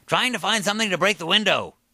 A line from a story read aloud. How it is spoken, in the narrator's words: Seth shouted